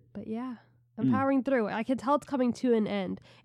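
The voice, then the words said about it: Strange-sounding voice with a cold. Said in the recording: “I've had a cold all week. ... Probably can tell my voice sounds a little strange. ... my nose got stuffy ... we're moving into the coughing.”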